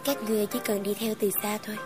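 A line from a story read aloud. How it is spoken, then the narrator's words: Soft laughing speech. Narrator (Vietnamese): Ta khẽ cười cùng nói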